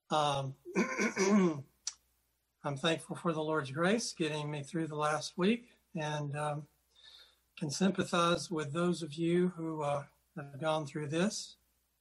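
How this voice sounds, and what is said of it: Voice sounds unwell. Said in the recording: “Apologize for my voice. It's about the worst thing about me at this moment.”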